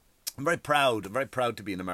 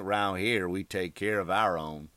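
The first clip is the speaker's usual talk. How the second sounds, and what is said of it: Sings lyric in put-on accent. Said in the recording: “I'm hearing that in an accent.”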